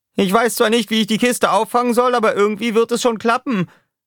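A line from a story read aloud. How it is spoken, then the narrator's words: Shouting downward. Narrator (German): schrie Roughshot nach unten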